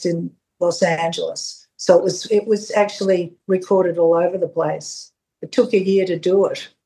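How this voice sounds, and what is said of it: Strong Australian Melbourne accent. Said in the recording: “your Australian accent is very strong ... this really strong Australian Fitzroy Melbourne accent ... It has a charming aspect to it”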